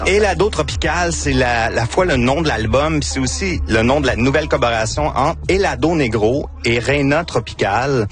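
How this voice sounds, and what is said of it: Victoriaville regional French accent. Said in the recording (French): “mon accent... C'est mon accent de Victoriaville”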